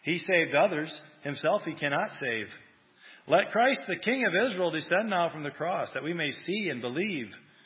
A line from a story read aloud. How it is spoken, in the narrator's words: the chief priests, mocking, said among themselves of the scribes